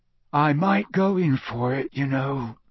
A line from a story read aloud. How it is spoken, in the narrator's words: Ron said sleepily through the darkness